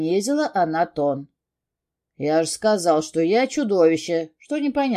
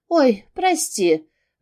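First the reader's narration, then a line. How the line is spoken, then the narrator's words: Breathless exhale. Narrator (Russian): выдохнула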